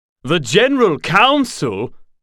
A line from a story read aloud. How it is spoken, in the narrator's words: Noel said loudly